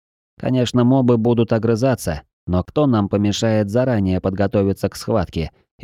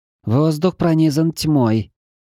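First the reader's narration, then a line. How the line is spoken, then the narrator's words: Deep sigh. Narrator (Russian): бездна глубоко вздохнула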